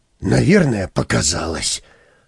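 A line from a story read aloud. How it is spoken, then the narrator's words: Relieved sigh. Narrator (Russian): облегченно вздохнул Хипротомус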